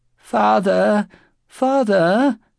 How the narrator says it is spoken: The entreating voice continued, like that of a child pleading with its mother

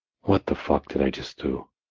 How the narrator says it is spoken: I scoffed to myself

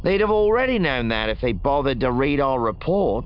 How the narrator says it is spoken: Wutro grumbled

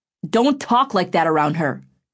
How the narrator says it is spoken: Griffin said sharply

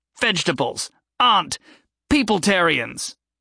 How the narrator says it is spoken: With a final shout

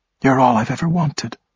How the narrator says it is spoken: she said softly

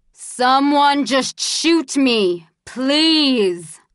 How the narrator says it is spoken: yelled the bald man

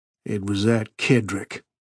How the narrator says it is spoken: he said grimly

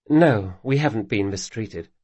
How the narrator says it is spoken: said Sabatha

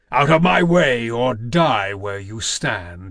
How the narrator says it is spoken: he thundered

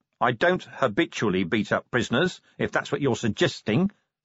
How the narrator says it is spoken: said Vimes

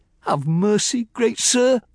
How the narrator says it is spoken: I pleaded, in terror

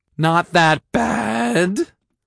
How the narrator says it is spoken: I wheezed

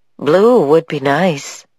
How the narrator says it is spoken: said the other voice wistfully

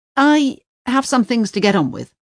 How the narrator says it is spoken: he says curtly to Parvana

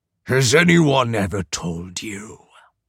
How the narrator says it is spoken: Python rasped

